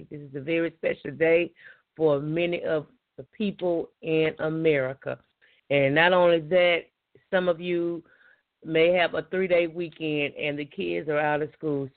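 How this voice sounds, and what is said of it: Scratchy, hoarse voice. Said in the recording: “Excuse my voice. It's a little scratchy and I'm a little hoarse ... my voice is a little scratchy and hoarse”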